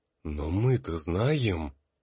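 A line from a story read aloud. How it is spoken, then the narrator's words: Exhaled softly. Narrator (Russian): выдохнул Тар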